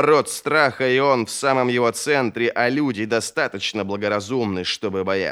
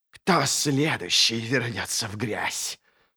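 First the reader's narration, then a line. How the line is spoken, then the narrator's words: Whispered question. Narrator (Russian): Шепотом спрашивает он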